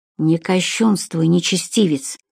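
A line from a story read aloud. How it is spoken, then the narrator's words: Angry mutter. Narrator (Russian): сердито буркнул незнакомец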